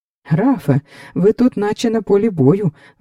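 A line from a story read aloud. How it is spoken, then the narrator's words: Exclamation. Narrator (Ukrainian): вигукнув Фелікс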